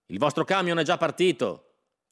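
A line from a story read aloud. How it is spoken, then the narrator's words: Mechanic shouting. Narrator (Italian): gridò un meccanico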